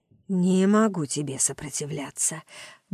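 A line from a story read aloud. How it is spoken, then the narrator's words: Murmur against lips. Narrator (Russian): бормочу в ее губы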